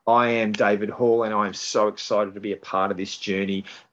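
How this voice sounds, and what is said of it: Australian accent. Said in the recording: “Don't adjust your sets to see if the sound's right. This is a real accent. ... You cannot get more south than Australia.”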